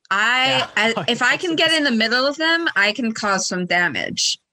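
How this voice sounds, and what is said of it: Exaggerated sexy character voice. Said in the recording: “This is ... by the way, if you couldn't tell by the extremely sexy voice.”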